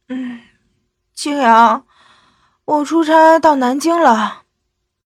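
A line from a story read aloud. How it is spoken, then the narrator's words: Tired yet smug. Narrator (Chinese): 青莲的声音疲惫中有些得意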